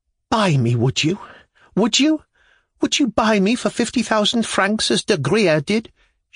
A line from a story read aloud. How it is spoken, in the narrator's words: she gasped between her convulsive sobs